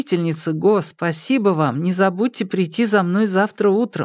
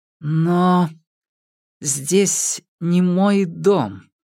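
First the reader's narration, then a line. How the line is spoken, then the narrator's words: Slow. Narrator (Russian): медленно произнесла Го Сяо Фэнь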